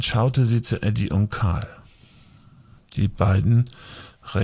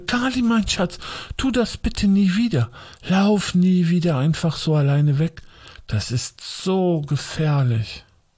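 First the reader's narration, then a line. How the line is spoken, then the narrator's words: Agitated voice. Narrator (German): sagte sie mit aufgeregter Stimme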